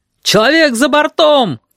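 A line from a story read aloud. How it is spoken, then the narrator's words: Shout. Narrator (Russian): крикнул кто-то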